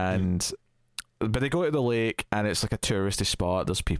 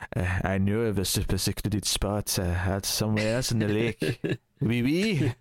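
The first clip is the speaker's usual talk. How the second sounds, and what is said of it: Poor put-on French accent. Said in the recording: “I can't do a French accent, so it's the best you can.”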